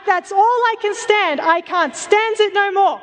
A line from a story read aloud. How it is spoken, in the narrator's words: He gets so worked up, if she is in danger, if something could potentially harm Olive, he explodes and he shouts